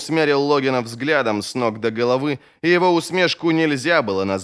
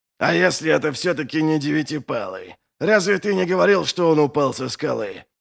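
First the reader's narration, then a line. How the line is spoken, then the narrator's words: Rude question. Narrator (Russian): грубо спросил он у Ищейки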